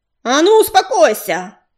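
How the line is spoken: Barked sharply. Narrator (Russian): рявкнула дочь Огнезвезд

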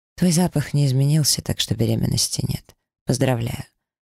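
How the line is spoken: Cold, emotionless explanation. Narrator (Russian): совершенно холодным и безэмоциональным тоном пояснил перевертыш

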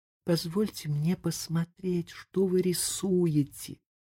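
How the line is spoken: Whisper. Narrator (Russian): прошептала она

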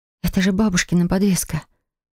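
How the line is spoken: Surprised whisper. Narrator (Russian): удивленно прошептала я

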